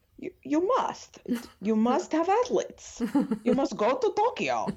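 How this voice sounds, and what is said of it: Exaggerated bad Russian accent. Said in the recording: “my bad, really Russian accent during this, my Putin impression”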